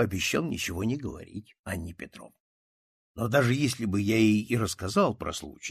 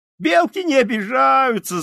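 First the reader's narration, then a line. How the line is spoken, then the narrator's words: Excited boys shouting. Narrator (Russian): закричали, волнуясь, мальчики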